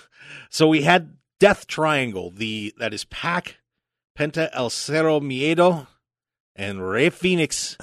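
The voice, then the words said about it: Names said with put-on accent. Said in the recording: “I like the way you say it with the accent.”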